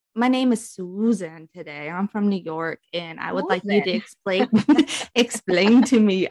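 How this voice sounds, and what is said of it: Mixed German, British, New York accent. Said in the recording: “I'm not even trying to be a New Yorker. I'm trying to be a German, British, New Yorker because that's the accent of the girl on the show”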